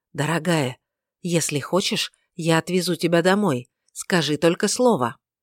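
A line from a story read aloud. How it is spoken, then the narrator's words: Whispered. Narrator (Russian): Муж прошептал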